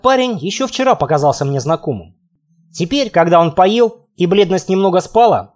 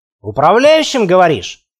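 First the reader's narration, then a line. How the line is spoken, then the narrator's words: Wry snort. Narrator (Russian): хмыкнул я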